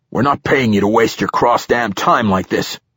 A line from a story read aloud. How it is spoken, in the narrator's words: he growled from around a thick cigar